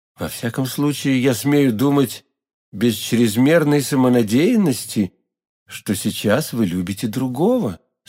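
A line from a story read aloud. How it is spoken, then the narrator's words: Tender young man. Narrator (Russian): сказал молодой человек нежным тоном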